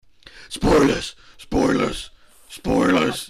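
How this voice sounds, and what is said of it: Loud shouted Batman-style character voice. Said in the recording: “that was really loud ... That was fucking loud ... best impression of Bruce Wayne saying spoilers”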